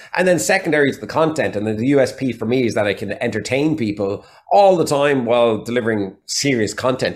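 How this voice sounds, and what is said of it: Irish accent, mixed regional. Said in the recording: “a mixture of accents. So there's still Waterford in there ... some Galway in there and some Dublin in there as well ... I've got the Irish accent”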